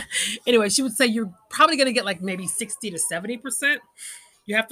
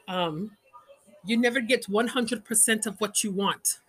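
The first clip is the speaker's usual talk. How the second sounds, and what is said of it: Exaggerated put-on Indian accent. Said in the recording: “It's my horrible Indian accent.”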